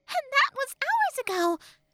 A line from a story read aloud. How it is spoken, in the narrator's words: Tattle exclaimed